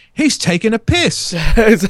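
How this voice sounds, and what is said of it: Put-on English accent. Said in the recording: “in an English accent”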